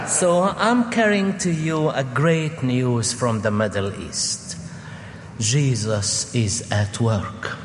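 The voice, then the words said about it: Arabic accent in English. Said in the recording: “bear with my accent. If you don't like it, I can turn and preach in Arabic.”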